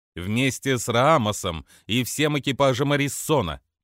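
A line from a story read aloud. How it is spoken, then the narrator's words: Growled. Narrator (Russian): прорычала Роску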